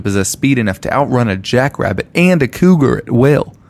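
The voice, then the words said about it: Put-on country accent, shifting. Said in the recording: “changing your accent 12 times by reading his description ... because he's country, I decided I was going to do an accent.”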